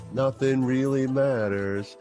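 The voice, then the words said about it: Imitates another person's voice. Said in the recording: “my Queen impersonation”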